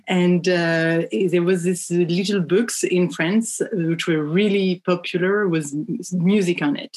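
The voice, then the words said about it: French accent. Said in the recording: “I come from France, as you can tell with my accent”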